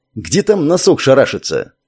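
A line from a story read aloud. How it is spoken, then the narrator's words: Muttered. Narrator (Russian): пробурчал Леха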